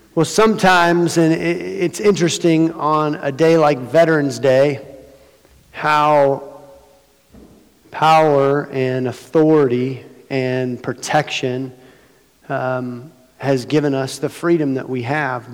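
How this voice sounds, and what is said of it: Weak voice recovering from laryngitis. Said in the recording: “My voice is just coming back on Wednesday. Just completely lost my voice”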